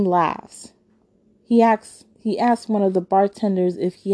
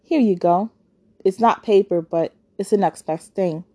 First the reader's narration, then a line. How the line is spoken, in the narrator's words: Chauncey says